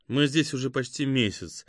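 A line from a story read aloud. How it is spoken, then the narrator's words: Sad. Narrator (Russian): грустно проговорила Катя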